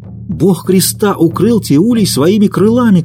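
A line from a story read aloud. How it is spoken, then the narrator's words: Women shouting. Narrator (Russian): кричали женщины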